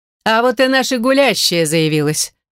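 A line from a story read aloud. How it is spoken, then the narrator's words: Loud. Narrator (Russian): Так же громко произнесла Эльза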